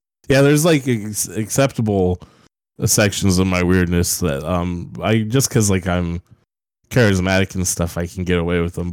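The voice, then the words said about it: Congested voice from a cold. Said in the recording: “I have a cold... That's why I sound crazy, because of the virus.”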